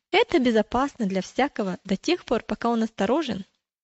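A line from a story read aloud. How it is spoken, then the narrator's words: Quick reply. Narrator (Russian): Он быстро ответил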